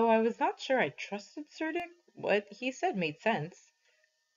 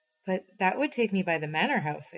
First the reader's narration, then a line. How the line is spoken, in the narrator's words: I said